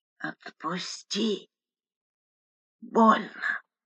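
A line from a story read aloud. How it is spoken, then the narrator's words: Hoarse wheeze in pain. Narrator (Russian): Сквозь обморочную боль хрипела Лика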